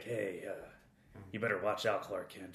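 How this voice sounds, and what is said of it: Imitates another person's voice. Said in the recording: “it's like Clint Eastwoodish.”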